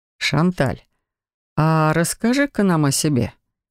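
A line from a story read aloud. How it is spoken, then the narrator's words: Suspiciously sweet. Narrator (Russian): подозрительно ласково произнес Себастьян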